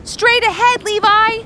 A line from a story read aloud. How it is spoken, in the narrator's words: called out Ross